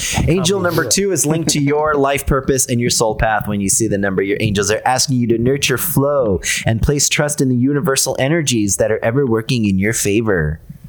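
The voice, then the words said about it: Mystical fortune-teller voice. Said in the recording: “Are you copying when I do that voice? ... I channel my Sedona voice when I have a story about like a fortune.”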